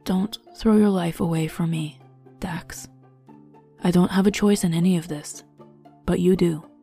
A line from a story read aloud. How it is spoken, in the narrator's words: Zayrade murmured